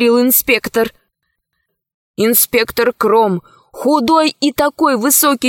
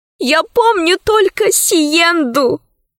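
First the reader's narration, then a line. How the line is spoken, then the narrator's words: Sobbing. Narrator (Russian): сказала, всхлипнув, рабыня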